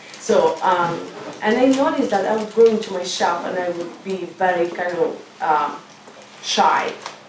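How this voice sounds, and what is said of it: Speaks with an accent. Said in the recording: “I have accent ... You have accent”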